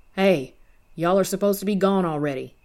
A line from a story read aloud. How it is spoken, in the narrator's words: Roy yelled